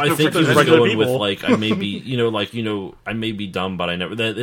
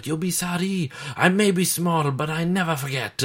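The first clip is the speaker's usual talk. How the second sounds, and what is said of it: Put-on French accent. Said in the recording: “He does a French accent.”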